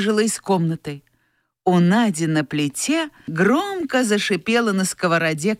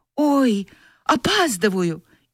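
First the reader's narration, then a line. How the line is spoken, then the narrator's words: Frightened exclamation. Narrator (Russian): Катя испуганно ойкнула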